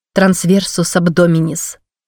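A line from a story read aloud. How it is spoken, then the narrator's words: Plain. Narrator (Russian): сказала я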